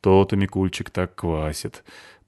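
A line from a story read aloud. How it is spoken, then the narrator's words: Knowing sigh. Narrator (Russian): понимающе вздохнул я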